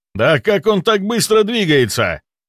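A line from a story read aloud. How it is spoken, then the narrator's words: Exasperated exclamation. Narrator (Russian): В сердцах воскликнул водитель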